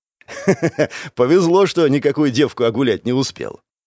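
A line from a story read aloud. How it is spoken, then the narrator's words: Chuckling. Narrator (Russian): хохотнул Лучезар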